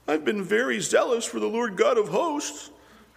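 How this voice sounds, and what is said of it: Whiny voice. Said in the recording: “whiny voice”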